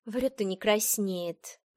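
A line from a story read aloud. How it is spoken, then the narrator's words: Grumbling. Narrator (Russian): проворчала Сибелла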